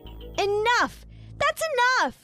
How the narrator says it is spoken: I shouted

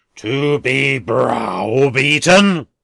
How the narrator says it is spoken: returned the philanthropist, raising his voice to a roar

